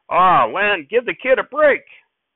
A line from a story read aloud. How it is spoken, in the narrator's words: somebody else down the table called out